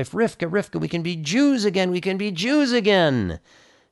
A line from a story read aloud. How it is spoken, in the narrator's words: called out to his wife